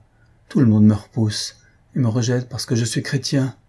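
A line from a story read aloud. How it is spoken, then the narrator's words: Sighing. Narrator (French): dit en soupirant Déoda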